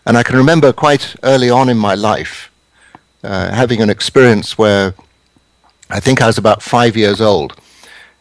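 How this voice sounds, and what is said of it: English accent. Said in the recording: “You can tell from my accent, I didn't grow up in America ... I grew up in England”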